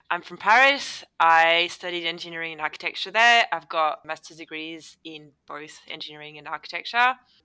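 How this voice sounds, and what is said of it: French accent. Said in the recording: “I'm from France, as you can probably pick up with the accent.”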